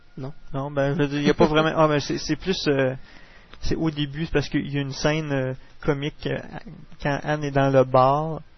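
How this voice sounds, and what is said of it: Québécois French accent. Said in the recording (French): “mon accent québécois”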